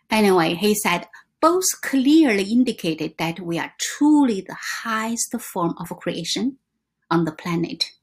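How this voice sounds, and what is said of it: Non-native English accent. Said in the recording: “some words are pronunciations not right ... English is not my first language ... your accent, your mispronunciation”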